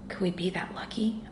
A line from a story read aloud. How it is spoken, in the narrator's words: I whispered